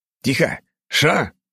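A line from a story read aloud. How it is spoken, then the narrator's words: Barked sharply. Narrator (Russian): гаркнул я на него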